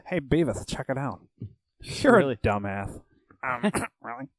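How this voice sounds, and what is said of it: Cartoon character voice impression. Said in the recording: “great Beavis and Butthead impression”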